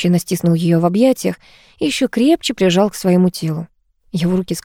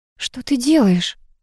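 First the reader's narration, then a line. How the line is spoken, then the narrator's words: Ragged breathy. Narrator (Russian): Рвано выдохнула она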